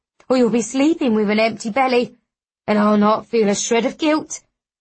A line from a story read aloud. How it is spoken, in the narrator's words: the woman snaps